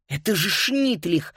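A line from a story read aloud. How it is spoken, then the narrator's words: Breathless exclamation. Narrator (Russian): выдохнула Фрида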